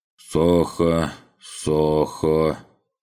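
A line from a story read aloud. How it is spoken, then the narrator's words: Drawn-out, thoughtful. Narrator (Russian): протянул Сахар, задумчиво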